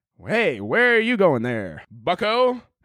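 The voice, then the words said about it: Put-on old transatlantic accent. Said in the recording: “transatlantic accent”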